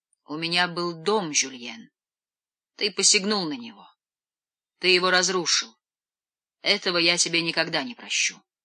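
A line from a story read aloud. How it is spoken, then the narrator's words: Muffled, hollow voice. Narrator (Russian): Жорж глухо произносит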